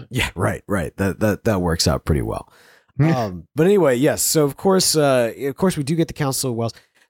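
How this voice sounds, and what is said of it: Congested voice with a cold. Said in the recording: “I can't do voices right now ... every accent you do is that person with a cold.”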